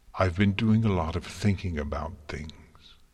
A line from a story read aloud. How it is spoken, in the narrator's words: Twilight said, her voice barely controlled